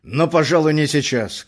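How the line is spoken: Nervous strained shout. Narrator (Russian): крикнул он тоже и понял, что нервы его не выдерживают

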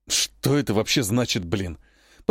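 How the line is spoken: Whispering under breath. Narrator (Russian): прошептал себе под нос мангуст

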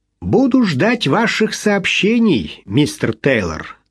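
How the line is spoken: Plain. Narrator (Russian): сказал судья Джону

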